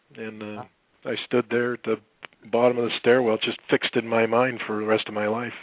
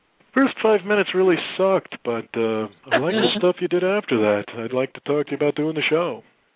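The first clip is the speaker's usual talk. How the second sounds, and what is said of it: Good impression of Jim McCauley. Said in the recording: “this is a really good impression, by the way, if you know Jim McCauley.”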